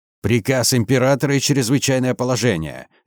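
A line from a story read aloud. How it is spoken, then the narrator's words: Barked. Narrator (Russian): рявкнул я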